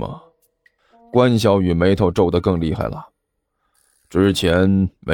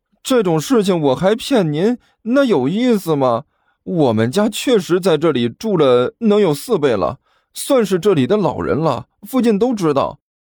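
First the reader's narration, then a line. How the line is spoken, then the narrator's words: Doleful, whining. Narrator (Chinese): 甘球哭丧着脸说道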